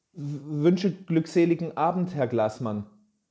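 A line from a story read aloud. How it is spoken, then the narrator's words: Throat-clearing, trembling voice. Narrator (German): räusperte sich und sprach mit zitternder Stimme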